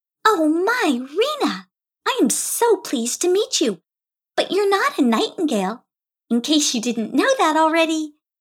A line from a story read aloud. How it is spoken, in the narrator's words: teased Teeza in a playful little voice